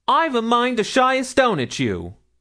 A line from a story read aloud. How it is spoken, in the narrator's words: shouted Milly